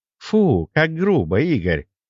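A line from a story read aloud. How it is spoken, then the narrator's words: Unoffended laugh. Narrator (Russian): Совершенно не обидевшись, рассмеялась Агаша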